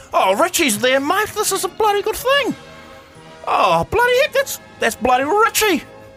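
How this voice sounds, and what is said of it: Put-on rural New Zealand accent. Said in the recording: “I love your middle New Zealand ah, accent, your farmer's accent.”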